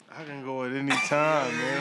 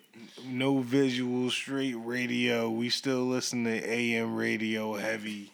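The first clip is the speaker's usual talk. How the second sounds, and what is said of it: Raspy AM radio announcer voice. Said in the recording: “He gave us the raspy voice. ... He put the AM radio voice on.”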